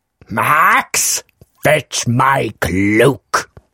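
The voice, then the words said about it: Jim Carrey's Grinch voice impression. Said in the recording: “Jim Carrey doing the Grinch ... Can you do a vocal impression? ... Not bad. ... It's an eight.”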